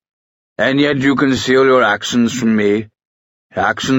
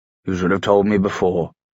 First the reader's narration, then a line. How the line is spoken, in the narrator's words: the consul said flatly